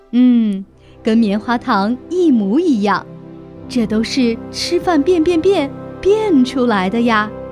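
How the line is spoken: Satisfied, mysterious smile. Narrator (Chinese): 猫妈妈满意地露出一个神秘的微笑说

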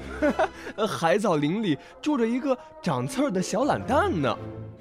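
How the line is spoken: Mocking, small animals. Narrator (Chinese): 每一只路过的小动物都会忍不住笑话紫海胆说

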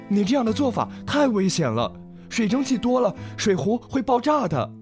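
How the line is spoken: Hurried, urgent. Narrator (Chinese): 小马急忙说

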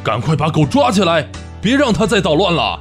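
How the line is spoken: Manager roaring. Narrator (Chinese): 经理吼道

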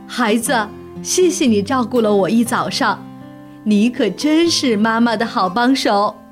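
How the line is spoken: Happy, smiling mother. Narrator (Chinese): 熊妈妈立刻高兴起来了，笑着对他说

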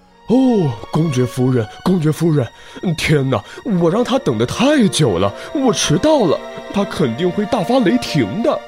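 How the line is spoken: Continuous mumbling. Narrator (Chinese): 嘴里还不停地嘟囔着

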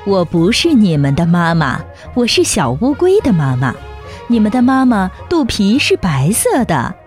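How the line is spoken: Laughing. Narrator (Chinese): 大乌龟笑着说

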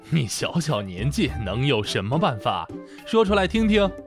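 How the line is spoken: Laughing. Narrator (Chinese): 就笑着说

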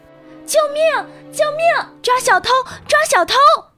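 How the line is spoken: Loud cries. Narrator (Chinese): 大声呼喊

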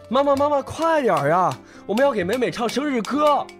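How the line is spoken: Child calling out. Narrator (Chinese): 哥哥叫着

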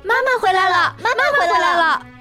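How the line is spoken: Excited shouting while hopping. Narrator (Chinese): 红眼睛和短尾巴……蹦蹦跳跳的……边跳边喊

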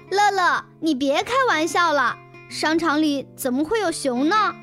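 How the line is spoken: Loud. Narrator (Chinese): 笑笑大声说

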